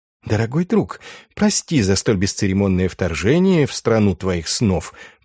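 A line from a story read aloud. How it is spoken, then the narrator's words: Whisper. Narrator (Russian): прошептал Андреас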